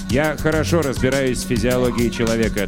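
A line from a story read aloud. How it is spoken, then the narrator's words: Mechanical voice. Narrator (Russian): отвечает Эвери механическим голосом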